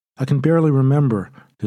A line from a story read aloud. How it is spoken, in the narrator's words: his son says